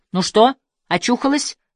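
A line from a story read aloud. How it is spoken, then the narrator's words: Irritated. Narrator (Russian): Раздраженно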